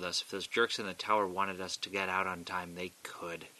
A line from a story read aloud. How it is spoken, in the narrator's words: he muttered